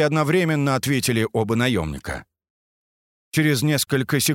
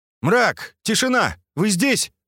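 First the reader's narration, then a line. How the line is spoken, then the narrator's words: Loud question. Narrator (Russian): громко поинтересовался Скат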